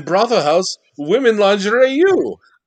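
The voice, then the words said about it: Imitated Eastern European broken English. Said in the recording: “this person was from like Eastern Europe or like Norway ... a stereotypical Native American is doing a Yakov Smirnoff impression”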